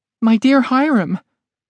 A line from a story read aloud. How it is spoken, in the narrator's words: cried Mrs